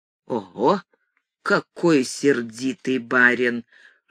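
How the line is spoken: Whisper. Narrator (Russian): шепнул я

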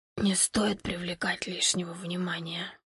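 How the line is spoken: Smirking whisper. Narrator (Russian): Незнакомец усмехнулся, прошептал

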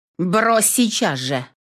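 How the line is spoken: Sudden barked command. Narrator (Russian): Неожиданно для самой себя рявкнула я

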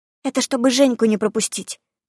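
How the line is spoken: Whispered into ear. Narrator (Russian): прошептала Дарья мне в ухо

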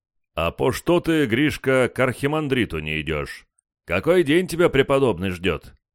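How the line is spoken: Deep bass voice. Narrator (Russian): пробасил один из монахов

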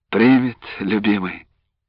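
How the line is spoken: Sighing reply. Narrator (Russian): вздохнув, ответила она

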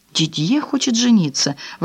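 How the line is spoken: Exclaiming. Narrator (Russian): воскликнула Франсуаза

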